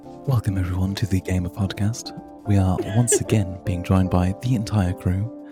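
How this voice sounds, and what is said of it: Announcer-style podcast narration voice. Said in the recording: “do a little of your podcast voice narration”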